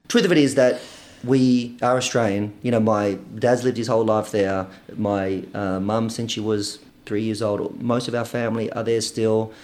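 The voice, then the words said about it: Australian accent, slight Greek variant. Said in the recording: “Is this an Australian accent you have? ... Yes. Well, right now, I think it's a kind of hybrid of a lot ... my accent, I would say, is a ... a slight Greek variant of Australian.”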